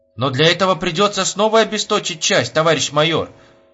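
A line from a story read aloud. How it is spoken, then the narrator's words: Exclaimed. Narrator (Russian): воскликнул Кочегарин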